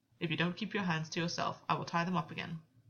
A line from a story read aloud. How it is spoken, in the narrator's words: Gwyn said stiffly